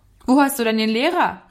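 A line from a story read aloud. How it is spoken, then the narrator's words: Called out while trotting. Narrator (German): rief er ihm zu, während er ihm entgegentrabte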